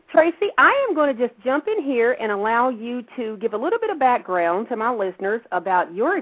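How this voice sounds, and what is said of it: Southern American accent. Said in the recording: “Of course, I have a southern accent.”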